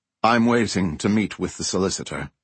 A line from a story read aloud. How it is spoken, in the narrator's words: Oliver said